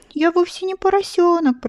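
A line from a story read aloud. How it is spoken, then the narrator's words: Sobbed. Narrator (Russian): прорыдала она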